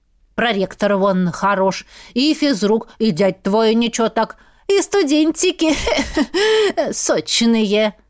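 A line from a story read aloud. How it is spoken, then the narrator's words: Drunken giggle. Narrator (Russian): Она пьяно хихикнула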